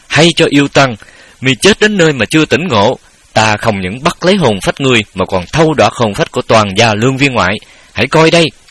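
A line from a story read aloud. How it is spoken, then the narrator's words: Shaken but defiant shout. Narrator (Vietnamese): bủng rủng tay chân, nhưng cũng làm già mà thét lên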